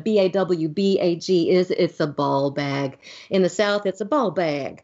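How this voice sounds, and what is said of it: Put-on Southern US accent. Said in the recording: “That's one of my southern accents.”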